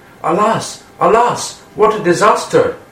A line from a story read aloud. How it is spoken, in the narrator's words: Balaram and the boys exclaimed